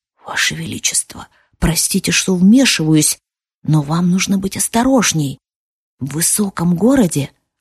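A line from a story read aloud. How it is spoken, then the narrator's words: Lowered whisper. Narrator (Russian): понизив голос, прошептал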